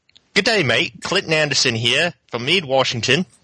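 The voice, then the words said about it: Put-on Australian accent. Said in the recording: “You do an Australian accent ... how well your Australian accent was”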